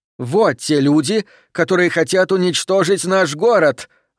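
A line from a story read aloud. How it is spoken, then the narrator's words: Shouting out. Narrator (Russian): выкрикнула она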